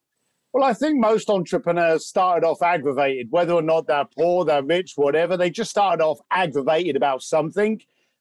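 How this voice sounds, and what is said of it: East London accent. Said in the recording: “where that accent comes from ... I grew up in East London.”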